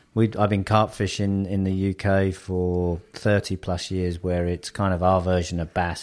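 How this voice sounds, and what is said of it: Southern English accent. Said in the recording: “you can tell by my accent ... I'm actually an expat from the south of England”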